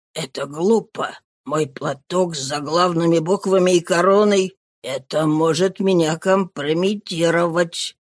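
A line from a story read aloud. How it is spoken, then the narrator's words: Muttering. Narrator (Russian): он пробормотал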